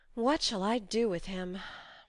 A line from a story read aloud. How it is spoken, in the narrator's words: sighed Joe, finding that emotions were more unmanageable than she had expected